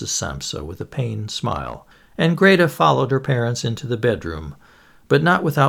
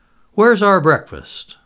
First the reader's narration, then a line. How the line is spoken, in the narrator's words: asked irritably